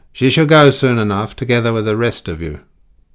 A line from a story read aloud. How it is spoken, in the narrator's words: the man personating the inspector judged it expedient to say roughly